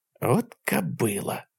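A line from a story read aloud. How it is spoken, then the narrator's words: Quiet mutter. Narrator (Russian): тихо пробормотал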